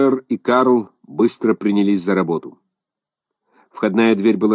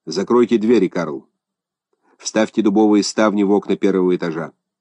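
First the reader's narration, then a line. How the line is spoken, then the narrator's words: Calm, composed command. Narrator (Russian): скоро овладел собой, спокойно отдал приказание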